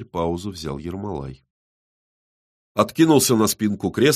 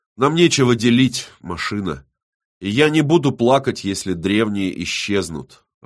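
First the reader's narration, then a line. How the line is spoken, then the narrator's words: Snort. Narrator (Russian): Вадонна хмыкнул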